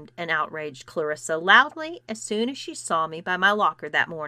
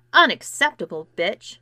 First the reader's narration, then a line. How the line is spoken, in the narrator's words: spat Clarissa